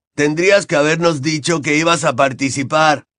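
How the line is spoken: Shouting. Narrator (Spanish): gritó Fred

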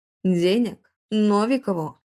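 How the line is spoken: Roaring laughter. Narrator (Russian): расхохотался отец Макса

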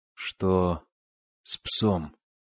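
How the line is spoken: Hoarse rasp. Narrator (Russian): прохрипел Хаген

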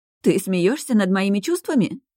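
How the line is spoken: Indignant exclamation, princess. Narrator (Russian): возмущенно воскликнула принцесса

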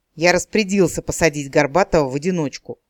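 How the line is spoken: Glum snap. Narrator (Russian): уныло огрызнулся следователь

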